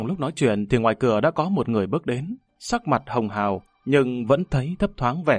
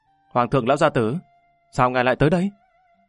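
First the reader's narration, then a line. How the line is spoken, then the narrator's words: Smiling greeting. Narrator (Vietnamese): Lâm Văn Vinh mỉm cười chào đón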